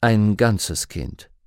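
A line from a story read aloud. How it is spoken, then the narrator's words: Calm. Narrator (German): sagte Lord Asriel ruhig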